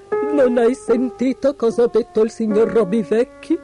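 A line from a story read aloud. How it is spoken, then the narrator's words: Moaning. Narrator (Italian): gemette Trumpel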